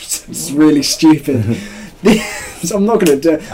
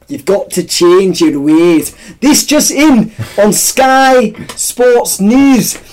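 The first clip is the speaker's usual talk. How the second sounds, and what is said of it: Attempted Scottish sports-news presenter voice. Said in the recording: “Why are you saying it like you're Jim White? ... I can't do his accent. He's Scottish, isn't he? ... my Scottish”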